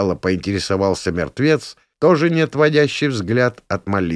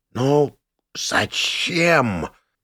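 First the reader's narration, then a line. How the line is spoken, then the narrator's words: Dead elf's suddenly animated exhale. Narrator (Russian): выдохнул неожиданно загоревшийся искрой активности мертвый эльф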